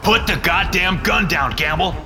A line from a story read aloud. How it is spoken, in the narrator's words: Tovar shouts